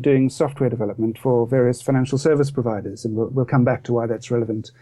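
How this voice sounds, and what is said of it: South African accent. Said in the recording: “as others can probably tell from my accent, I'm not originally from around here. I grew up in Cape Town in South Africa”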